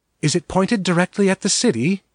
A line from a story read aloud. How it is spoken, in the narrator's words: Mara asked anxiously